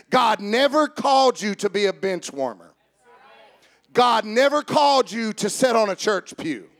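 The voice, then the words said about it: Emphatic preacher-style delivery. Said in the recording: “with good preacher voice.”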